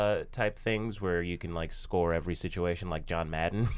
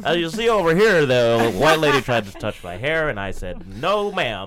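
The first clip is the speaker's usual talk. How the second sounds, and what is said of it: Imitates a sports commentator's voice. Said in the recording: “this is a very bad John Madden impression”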